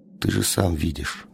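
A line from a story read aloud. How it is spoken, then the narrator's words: Plain. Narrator (Russian): сказал он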